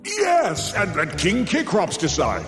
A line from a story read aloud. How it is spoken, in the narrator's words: Zeus bellowed, relieved he once again could pass the buck